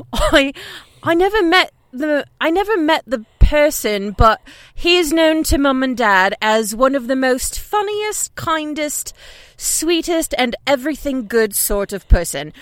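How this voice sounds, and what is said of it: Put-on British accent, poorly done. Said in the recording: “Should I read it with an accent? ... Oh, definitely. ... we love a British accent ... we're going to totally murder it in a bad way”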